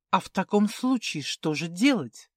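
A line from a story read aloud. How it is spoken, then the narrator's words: Hesitant pleading whisper. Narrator (Russian): нерешительно прошептала графиня, умоляюще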